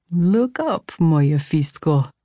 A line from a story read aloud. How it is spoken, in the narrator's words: he said, his voice lilting with amusement